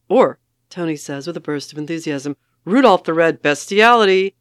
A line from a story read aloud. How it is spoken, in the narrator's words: Jason says sharply